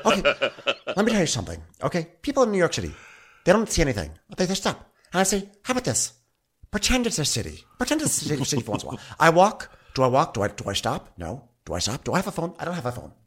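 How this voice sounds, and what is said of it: Fran Lebowitz impression. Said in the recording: “I've never done a Fran Lebowitz impersonation. I'm really feeling it.”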